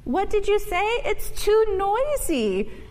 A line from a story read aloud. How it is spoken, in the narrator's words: yelled her mother